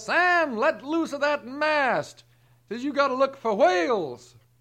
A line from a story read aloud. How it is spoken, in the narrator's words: The captain hollers up